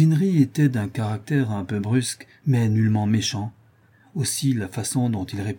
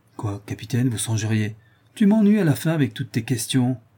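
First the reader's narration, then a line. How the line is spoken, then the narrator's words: Exclaimed, interrupting. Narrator (French): s'écria Cousinry en m'interrompant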